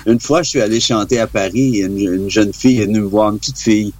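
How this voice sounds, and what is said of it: Strong Québécois French accent. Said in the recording (French): “vient du Québec ... c'est vrai que pour nous Français, c'est assez fort ... Pourquoi tu parles comme Louis XIV”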